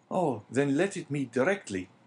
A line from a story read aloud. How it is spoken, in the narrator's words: exclaimed the young man